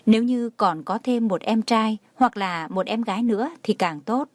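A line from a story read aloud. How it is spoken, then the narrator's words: Comforting, smiling. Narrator (Vietnamese): Tường Thiên Lỗi an ủi mẹ, mỉm cười nói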